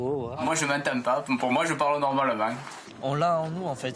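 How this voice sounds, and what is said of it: Southern French accent. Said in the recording (French): “Moi, je suis fière de mon accent. ... On est dans le sud. On parle du sud.”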